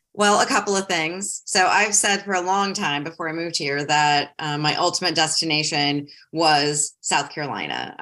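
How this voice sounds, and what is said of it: Northern US accent. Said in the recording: “people tell me I have a northern accent.”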